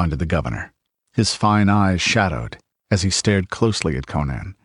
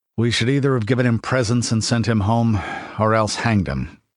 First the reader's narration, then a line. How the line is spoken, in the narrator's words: sighed the governor